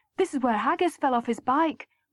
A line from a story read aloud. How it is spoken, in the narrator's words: John would always chirp up